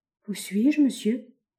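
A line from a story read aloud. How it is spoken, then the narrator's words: Weak voice. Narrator (French): demanda-t-il d'une voix faible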